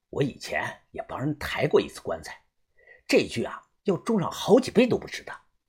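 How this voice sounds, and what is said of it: Speaking in a low, quiet voice. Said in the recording (Chinese): “小声的说”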